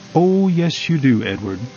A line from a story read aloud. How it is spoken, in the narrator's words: replied Mr